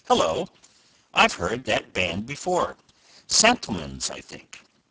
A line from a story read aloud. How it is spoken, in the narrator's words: Joy suddenly broke off in the middle of an eloquent sentence, exclaiming